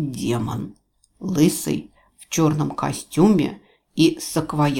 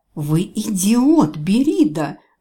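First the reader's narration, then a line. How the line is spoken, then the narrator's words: Inhuman demonic shriek. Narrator (Russian): завизжала демоница нечеловеческим голосом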